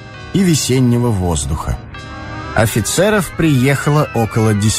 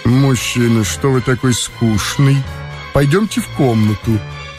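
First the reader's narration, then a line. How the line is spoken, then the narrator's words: Low female voice. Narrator (Russian): сказала она низким голосом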